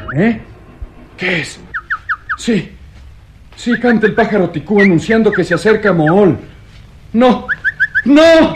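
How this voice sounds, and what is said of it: Anguished, terrified shouting. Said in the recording (Spanish): “aquellos gritos, mitad de angustia y mitad de terror”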